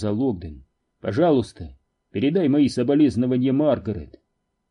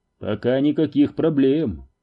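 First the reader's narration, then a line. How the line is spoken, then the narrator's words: Dry. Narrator (Russian): сухо сообщил тот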